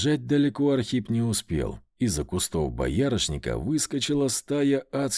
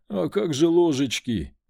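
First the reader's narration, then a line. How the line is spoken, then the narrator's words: Moaned. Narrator (Russian): простонал он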